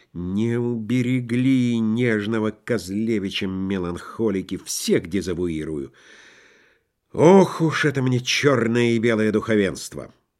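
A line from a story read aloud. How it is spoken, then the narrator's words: Muttering. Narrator (Russian): бормотал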